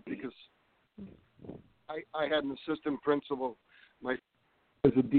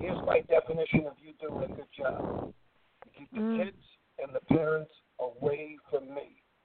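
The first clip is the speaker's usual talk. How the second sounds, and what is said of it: Imitates another person's voice. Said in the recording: “this is a pretty good imitation of him”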